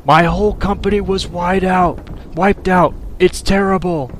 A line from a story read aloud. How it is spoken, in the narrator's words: One of the newcomers shouted to us through his frantic gasp for breath